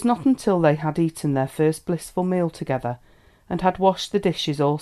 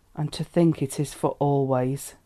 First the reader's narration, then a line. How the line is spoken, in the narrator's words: he murmured